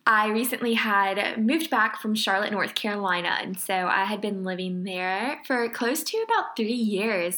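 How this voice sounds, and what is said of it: Louisiana accent. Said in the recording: “I am from Lake Charles, Louisiana... Hear it in your precious accent though... my accent has probably like gotten so much worse”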